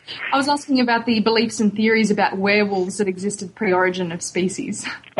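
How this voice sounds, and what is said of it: Speaks with a noticeable accent. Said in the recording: “It must be my accent here.”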